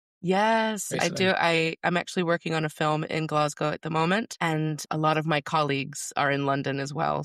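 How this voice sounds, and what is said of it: American accent. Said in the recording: “judging by the accent, you're not based in the UK ... I'm American”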